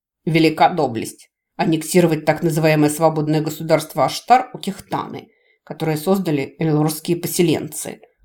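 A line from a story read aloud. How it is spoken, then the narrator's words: Mentor snorting. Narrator (Russian): фыркнул наставник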